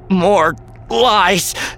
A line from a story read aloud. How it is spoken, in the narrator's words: Ben gasped